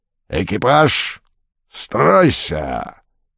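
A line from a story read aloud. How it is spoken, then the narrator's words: Two-headed roar. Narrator (Russian): взревел двуглавый Юл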